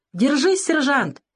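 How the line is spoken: Shouted. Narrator (Russian): крикнул Савелий

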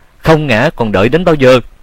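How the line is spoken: Shout. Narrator (Vietnamese): Tiếng hét

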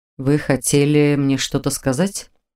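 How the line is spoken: Plain. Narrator (Russian): спросил Норман

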